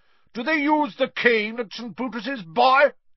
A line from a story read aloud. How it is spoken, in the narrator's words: she barked across the table